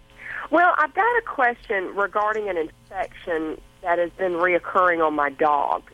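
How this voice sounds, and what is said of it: Southern US accent. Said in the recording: “I love your accent. I love that Southern accent.”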